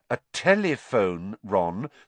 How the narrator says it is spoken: said Hermione

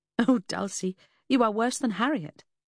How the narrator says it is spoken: I laughed, despite or because of my misgivings

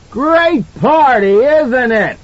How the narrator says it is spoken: He screamed into her face

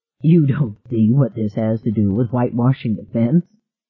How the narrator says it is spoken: Gardner asked and laughed

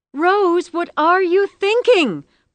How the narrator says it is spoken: Practical Sensible screamed

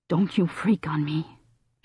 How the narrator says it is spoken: she said in a ragged voice

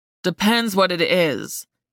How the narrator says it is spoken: he said in a gravelly tone

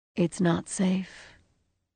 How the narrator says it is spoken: added in her terrible, thoughtful voice

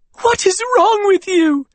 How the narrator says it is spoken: Wren yelled, her voice cracking, tears spilling down her cheeks

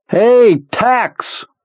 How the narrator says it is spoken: Beaver shouts

